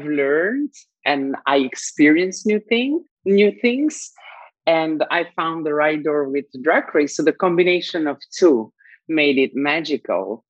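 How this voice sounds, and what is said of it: Noticeable non-native accent. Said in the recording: “this weird accent”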